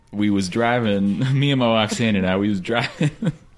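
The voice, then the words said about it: Put-on Oklahoma accent. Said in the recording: “Slipped a little Oklahoma in there. ... Can you use the accent, though, please?”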